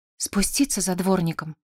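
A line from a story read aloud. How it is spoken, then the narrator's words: Trembling question. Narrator (Russian): спросила Коломбина дрожащим голосом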